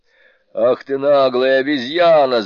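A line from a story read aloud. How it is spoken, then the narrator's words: Group shouting. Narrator (Russian): закричали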